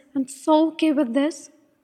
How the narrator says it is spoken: He snapped, fury and pain swirling in his eyes

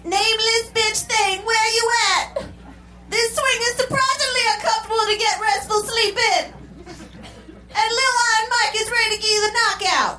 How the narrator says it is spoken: he yelled once more

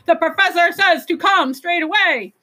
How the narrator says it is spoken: The sidewinders yelling

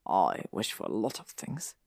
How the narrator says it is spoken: Draco muttered

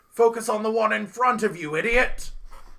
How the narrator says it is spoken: yells to you

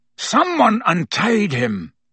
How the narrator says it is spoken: the executioner was snarling

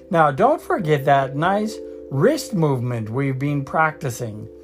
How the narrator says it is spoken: squeaked Professor Flitwick

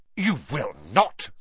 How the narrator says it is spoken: snapped Mrs

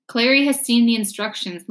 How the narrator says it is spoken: Lena said

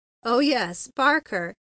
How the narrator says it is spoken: he laughed

